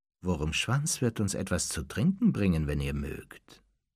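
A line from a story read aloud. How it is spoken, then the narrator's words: Plain. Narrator (German): sagte Snape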